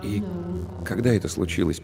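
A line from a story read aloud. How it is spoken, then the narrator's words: Quiet question. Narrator (Russian): поинтересовался он тихо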